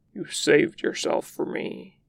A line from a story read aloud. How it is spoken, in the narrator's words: he growls